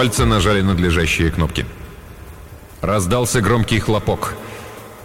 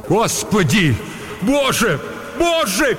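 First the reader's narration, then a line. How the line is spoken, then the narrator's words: Shouted. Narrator (Russian): крикнул Вагнер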